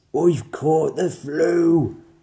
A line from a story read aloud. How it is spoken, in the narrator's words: the lion roared